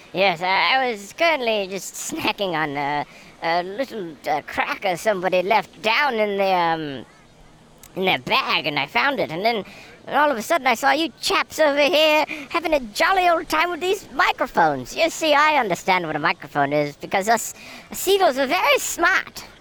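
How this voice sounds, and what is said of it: Seagull character with English accent. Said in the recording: “your accent, it sounds like you're... ... I happen to be from an island off the coast of England”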